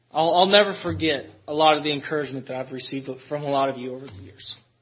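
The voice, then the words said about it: Emotional, choked-up voice. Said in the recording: “I get emotional.”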